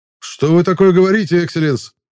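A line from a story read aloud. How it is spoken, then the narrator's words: Exaggeratedly loud exclamation. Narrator (Russian): преувеличенно громко воскликнул я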